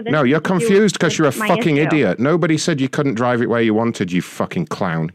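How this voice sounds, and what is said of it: Speaks with a noticeable accent. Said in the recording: “Love your accent.”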